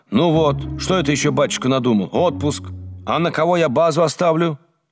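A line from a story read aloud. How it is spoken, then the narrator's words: Angry, fuming repetition. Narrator (Russian): кипятясь, сердито повторяла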